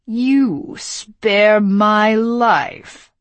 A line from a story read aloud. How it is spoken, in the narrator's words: he sneered